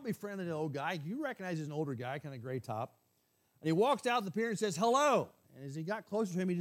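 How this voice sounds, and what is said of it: Usual voice. Nothing is said of it.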